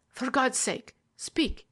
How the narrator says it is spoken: he cried

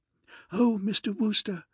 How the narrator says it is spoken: said the girl in a gasping sort of way

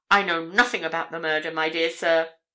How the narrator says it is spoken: exclaimed Mr

